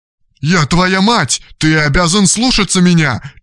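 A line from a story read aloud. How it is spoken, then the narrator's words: Nearly shouting. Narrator (Russian): чуть не закричала Дарья Антоновна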